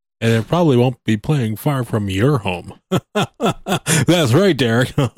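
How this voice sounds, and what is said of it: Announcer-style radio voice. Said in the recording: “I tried to do my official radio voice there”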